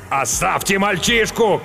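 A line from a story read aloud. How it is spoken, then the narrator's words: Bloodied man shouting. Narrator (Russian): крикнул римлянин, залитый кровью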